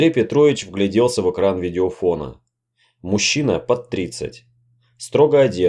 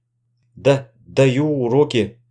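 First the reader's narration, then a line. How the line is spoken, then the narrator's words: Stammering with excitement. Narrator (Russian): запинаясь от волнения, сказал Андрей Петрович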